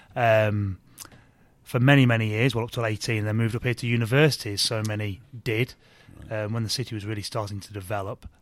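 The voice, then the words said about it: English Leicester accent. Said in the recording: “when I hear your accent, I don't think to myself, there's a fellow Bradfordian ... Leicester lad, Leicester, is how you say it properly”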